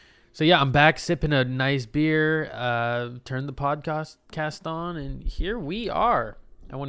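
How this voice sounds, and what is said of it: Usual voice. Nothing is said of it.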